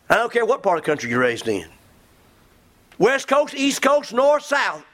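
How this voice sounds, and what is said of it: Southern American accent. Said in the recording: “I was raised in the South. You don't tell by my accent.”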